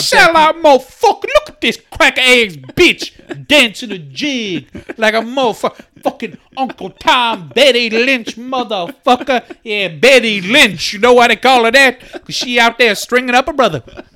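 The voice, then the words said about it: Imitates another person's voice. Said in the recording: “my McGregor impression”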